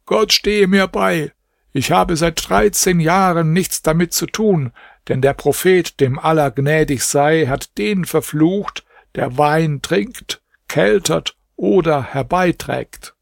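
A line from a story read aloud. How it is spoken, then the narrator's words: Called out. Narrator (German): rief Ibrahim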